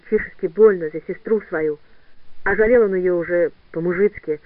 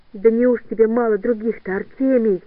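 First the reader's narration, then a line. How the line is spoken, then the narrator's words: Pleading. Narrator (Russian): взмолилась Катя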